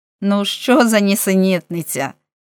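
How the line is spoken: Laughing. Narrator (Ukrainian): засміявся Френк

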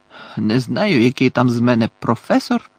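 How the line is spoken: Growled. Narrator (Ukrainian): прогарчав голос

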